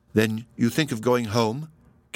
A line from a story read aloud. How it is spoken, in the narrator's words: Kenyon asked